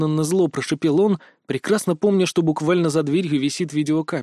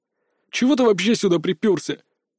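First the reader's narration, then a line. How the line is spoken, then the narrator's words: Quiet, curt. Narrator (Russian): негромко бросил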